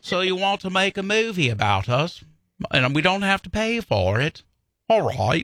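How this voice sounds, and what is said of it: American doing a British accent. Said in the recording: “British people love it when Americans try to do their accent”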